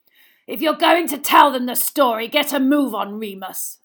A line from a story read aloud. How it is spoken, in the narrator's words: snarled Black